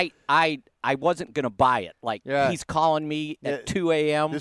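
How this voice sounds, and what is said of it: Usual voice. Nothing is said of it.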